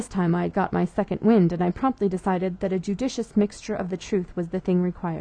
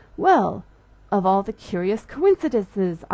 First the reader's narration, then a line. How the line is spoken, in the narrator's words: I exclaimed